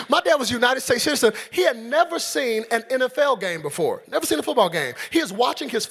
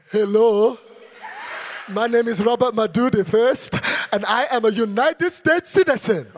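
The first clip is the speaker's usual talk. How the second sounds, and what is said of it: Imitates another person's foreign accent. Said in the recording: “No citizenship was changing that accent ... No citizenship was changing the accent. He's a citizen, don't even sound like one.”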